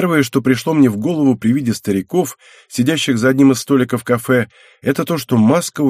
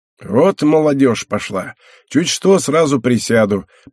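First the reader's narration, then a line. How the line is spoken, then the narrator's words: Old man grumbling. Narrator (Russian): проворчал старик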